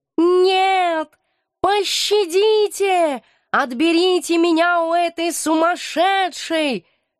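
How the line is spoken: Straining wail. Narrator (Russian): Надсадно вопил он

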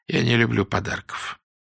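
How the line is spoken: Sullen grumble. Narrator (Russian): хмуро буркнул Корсо

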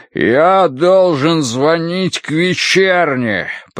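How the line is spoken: Booming voice. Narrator (Russian): прогремел он

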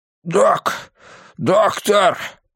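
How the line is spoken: Hoarse wheeze. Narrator (Russian): прохрипел месье

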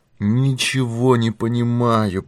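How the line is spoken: Groaning. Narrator (Russian): простонал тот

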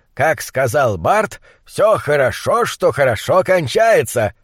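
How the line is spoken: Deep voice, feigned joy. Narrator (Russian): пробасил фон Хельрунг, сделанной радостью

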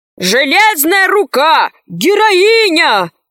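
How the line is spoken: Soldiers shouting together. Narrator (Russian): кричали солдаты

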